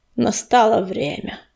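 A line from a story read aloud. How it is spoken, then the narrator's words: Solemn announcement. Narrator (Russian): торжественно объявил Камнесказ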